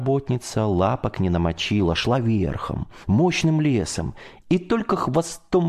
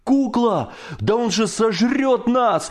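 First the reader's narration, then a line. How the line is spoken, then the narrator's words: Shouted. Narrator (Russian): закричал Коля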